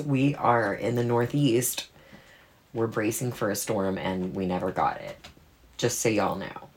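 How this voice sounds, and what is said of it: Hoarse, under-the-weather voice. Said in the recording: “my voice is a little bit under the weather”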